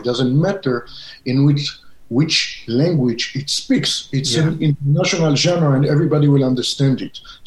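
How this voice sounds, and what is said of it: Israeli-accented English. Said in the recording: “you can hear my accent ... you're an Israeli”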